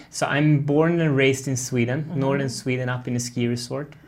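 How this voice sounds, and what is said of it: Slight Swedish accent. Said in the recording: “you got a little bit of an accent”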